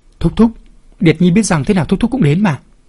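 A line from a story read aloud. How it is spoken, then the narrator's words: Joyful cry. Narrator (Vietnamese): Thạch Tú lúc này mừng rỡ kêu lên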